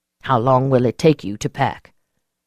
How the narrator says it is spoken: I sighed

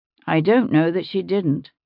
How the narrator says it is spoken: William said dryly

